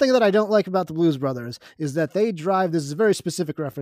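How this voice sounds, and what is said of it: Usual voice. Nothing is said of it.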